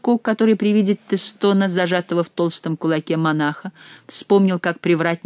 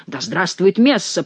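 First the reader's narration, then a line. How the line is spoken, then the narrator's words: Growled. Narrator (Russian): прорычал Гранфло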